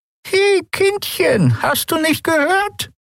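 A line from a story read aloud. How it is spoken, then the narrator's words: Old woman's croak. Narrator (German): krächzte die alte Frau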